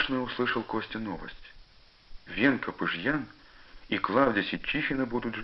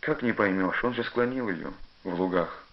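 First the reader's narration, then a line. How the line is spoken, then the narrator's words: Plain. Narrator (Russian): сказал отец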